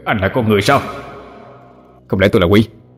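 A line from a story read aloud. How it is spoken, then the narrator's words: Cold reply. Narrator (Vietnamese): Ngô Hoài Sinh lạnh lùng đáp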